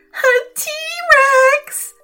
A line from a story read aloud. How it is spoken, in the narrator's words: screeched the second mountaineer